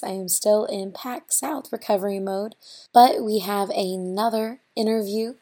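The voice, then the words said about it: Strained, unwell-sounding voice. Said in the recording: “sorry for my voice”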